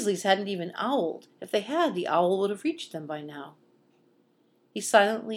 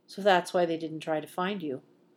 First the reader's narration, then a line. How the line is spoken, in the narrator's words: Severus murmured